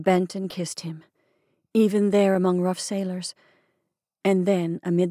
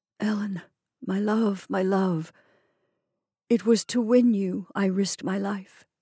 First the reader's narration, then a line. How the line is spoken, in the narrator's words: was faintly whispering